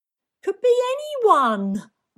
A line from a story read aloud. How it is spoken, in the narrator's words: wailed